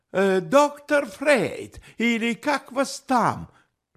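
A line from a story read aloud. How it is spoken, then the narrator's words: Sudden shout after someone. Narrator (Russian): вдруг крикнул ему вслед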